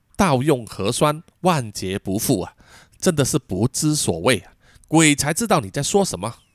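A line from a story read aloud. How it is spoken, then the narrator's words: Muttering to himself. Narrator (Chinese): 喃喃自语道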